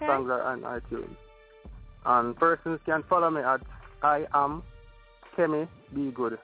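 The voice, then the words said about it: Speaks with a noticeable accent. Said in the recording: “I love your accent. I love your accent.”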